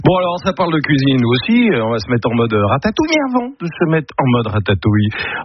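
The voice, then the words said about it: Strong English accent in French. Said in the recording (French): “tu avais un accent anglais de merde”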